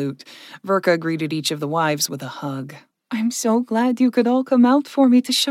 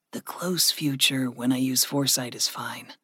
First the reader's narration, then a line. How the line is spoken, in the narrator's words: Gregory whispered back